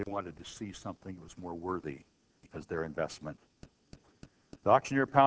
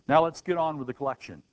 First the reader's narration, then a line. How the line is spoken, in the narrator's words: The man in the second row shouted